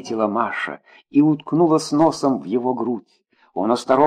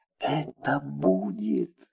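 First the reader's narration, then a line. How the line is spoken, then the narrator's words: Whisper. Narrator (Russian): прошептала Маша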